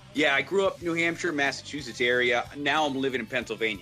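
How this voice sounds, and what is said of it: New England accent. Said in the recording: “I'm clearly a Yankee, right? New England born. You can hear it in my voice.”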